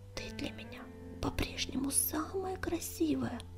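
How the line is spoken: Ardent whisper. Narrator (Russian): горячо шептал он

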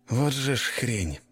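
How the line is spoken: Strained mutter. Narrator (Russian): пробормотал я, с трудом протискиваясь через очередной узкий лаз

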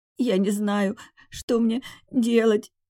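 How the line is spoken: Sobbing. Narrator (Russian): Всхлипывая

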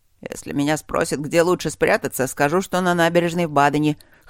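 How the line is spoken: Wry snort. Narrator (Russian): хмыкнул Маккензи

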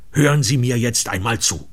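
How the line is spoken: Furious, determined shout. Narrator (German): schrie ich, entschlossen, den Mann endlich zur Vernunft zu bringen, wütend, dass ich selbst den Unsinn unterstützt und ermöglicht hatte

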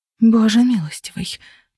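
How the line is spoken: Whispered. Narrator (Russian): прошептала

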